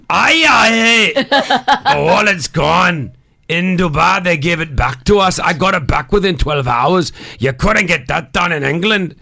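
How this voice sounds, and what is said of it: Put-on Welsh accent, Shrek-like. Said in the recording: “she was from Wales. So do her accent. ... You sound like Shrek.”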